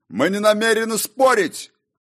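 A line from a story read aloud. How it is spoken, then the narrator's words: Barking royal shout. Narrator (Russian): гаркнул король рассветов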